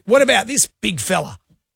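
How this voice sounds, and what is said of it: Imitates another person's voice. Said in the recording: “you do a very good impression of him... It is quite remarkable... his Robert Irwin impression... it's extraordinary... It's pretty good... That's not bad.”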